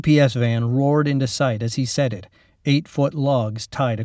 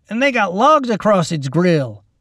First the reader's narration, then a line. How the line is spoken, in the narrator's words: Randy exclaimed